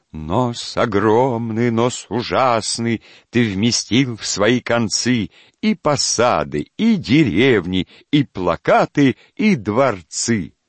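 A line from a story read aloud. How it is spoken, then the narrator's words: Sing-song recitation. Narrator (Russian): А задира Вася продекламировал нараспев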